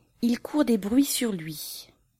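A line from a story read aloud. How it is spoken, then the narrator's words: Mysterious whisper. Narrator (French): chuchota Marie d'un air mystérieux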